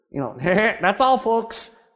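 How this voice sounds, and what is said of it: Bad cartoon pig voice impression. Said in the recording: “terrible imitation of Porky the Pig”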